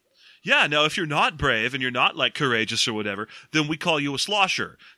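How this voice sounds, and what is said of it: Cool beachy surfer-dude accent. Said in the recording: “my kind of cool, beachy accent”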